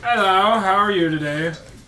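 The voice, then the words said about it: Speaks in a put-on accent. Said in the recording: “like an accent out of nowhere”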